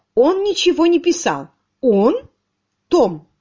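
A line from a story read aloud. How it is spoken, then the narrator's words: Plain. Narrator (Russian): сказала она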